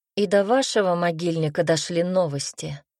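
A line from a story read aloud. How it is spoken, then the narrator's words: Snorting. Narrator (Russian): хмыкнул Арт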